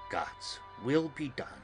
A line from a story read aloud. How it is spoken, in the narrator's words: She said solemnly